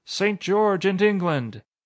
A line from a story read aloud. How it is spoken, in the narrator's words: cries of